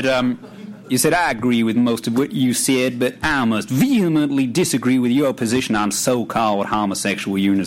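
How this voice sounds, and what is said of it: Put-on regional accent, self-described as poor. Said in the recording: “forgive me the travesty of an accent here, but you'll see in a second that the story depends on building ambience”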